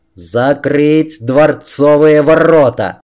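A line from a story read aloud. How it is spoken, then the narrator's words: Roaring like a wounded bear. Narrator (Russian): взревел он раненым медведем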